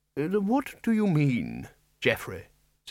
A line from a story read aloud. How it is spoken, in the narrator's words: said Ridcully, as kindly as he could